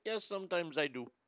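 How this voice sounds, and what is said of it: Put-on Middle Eastern accent. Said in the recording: “you spoke with a Middle Eastern accent”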